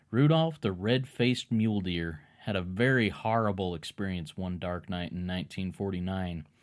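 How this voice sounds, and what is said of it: Imitated cowboy twang. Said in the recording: “I'm going to get into a little bit of his twang ... I'll try and imitate his twang a little bit”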